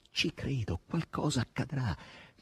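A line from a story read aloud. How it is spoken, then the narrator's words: Solemn whisper. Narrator (Italian): sussurrava solennemente Margherita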